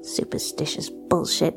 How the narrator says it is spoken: muttered Cassie

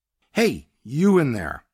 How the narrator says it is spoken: I raised my voice

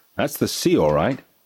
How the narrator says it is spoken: said Uncle Pete sternly

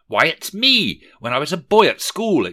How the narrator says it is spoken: exclaimed Rishi Scrooge

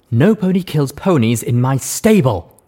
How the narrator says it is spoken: Mum said firmly

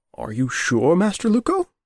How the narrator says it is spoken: he said, his voice trembling along with his hands

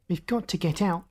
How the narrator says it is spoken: Josephine said sharply

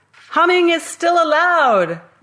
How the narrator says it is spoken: I shouted

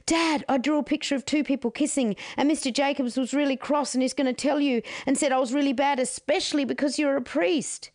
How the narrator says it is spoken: blurted to her father

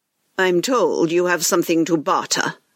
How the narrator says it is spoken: he coldly replied

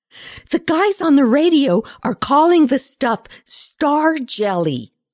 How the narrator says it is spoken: Lindsay bellowed

